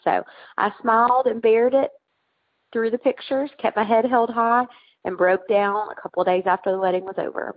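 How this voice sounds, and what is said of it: Sweet Tennessee Southern accent. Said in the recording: “you have a sweet Tennessee accent”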